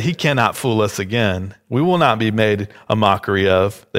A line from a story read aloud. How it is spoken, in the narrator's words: said